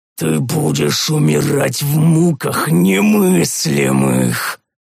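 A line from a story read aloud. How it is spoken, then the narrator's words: Rasping, alien, ugly voice. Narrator (Russian): прохрипел Тарис совсем другим, чужим, уродливым голосом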